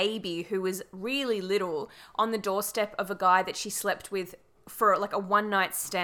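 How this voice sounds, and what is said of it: Usual voice. Nothing is said of it.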